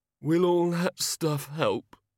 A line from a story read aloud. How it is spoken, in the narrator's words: he mumbled